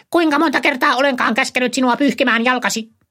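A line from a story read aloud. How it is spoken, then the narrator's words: Unearthly shriek. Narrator (Finnish): kuului niin yliluonnollinen kirkaisu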